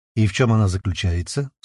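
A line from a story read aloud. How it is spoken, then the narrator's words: Dry question. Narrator (Russian): сухо поинтересовалась Алерия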